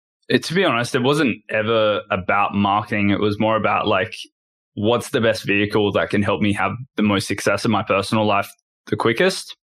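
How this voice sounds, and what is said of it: Australian accent. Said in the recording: “obviously is from Down Under. Can't tell by his accent.”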